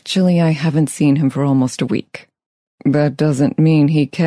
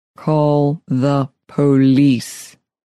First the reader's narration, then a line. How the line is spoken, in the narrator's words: Speaking slowly into her ear, Neil commanded